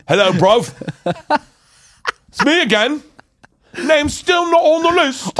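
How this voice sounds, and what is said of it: Put-on London doorman accent. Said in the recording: “that accent is spot on from the first time you did it”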